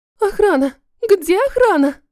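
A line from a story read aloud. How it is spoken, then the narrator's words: Woman's shriek. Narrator (Russian): взвизгнула какая-то женщина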